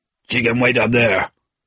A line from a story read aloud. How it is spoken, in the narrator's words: he said with a grunt